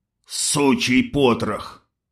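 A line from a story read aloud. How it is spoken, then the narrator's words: Through gritted teeth. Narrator (Russian): процедил крепкий тип в камуфляже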